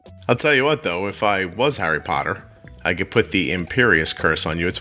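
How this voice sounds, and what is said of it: Northeastern US accent. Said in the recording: “my Northeast accent ... when I say Potter, it sounds a little like Potter”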